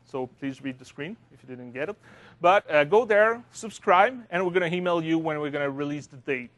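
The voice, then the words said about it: Speaker's own non-native accent. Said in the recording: “with my accent”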